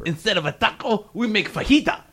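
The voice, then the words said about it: Mock Mexican accent. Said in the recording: “That was the Asian guy making fun of the Mexican people. ... What the fuck accent was that?”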